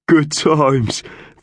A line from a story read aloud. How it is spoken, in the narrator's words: Thug sighed